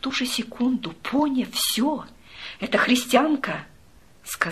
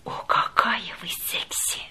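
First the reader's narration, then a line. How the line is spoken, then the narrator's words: Passionate whisper. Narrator (Russian): он страстно прошептал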